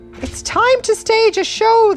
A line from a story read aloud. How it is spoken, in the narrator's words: they cried